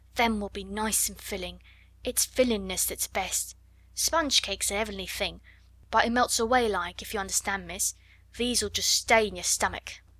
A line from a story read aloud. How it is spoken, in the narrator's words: she murmured